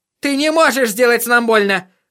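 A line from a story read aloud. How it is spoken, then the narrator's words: Yelling. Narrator (Russian): завопил он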